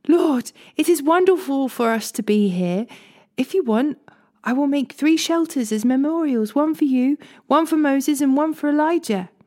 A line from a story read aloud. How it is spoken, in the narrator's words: Peter exclaimed